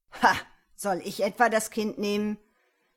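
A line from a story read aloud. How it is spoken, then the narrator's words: Scornful laugh. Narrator (German): Frank lachte höhnisch auf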